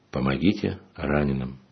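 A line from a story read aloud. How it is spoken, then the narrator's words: Said quietly. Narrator (Russian): тихо произнес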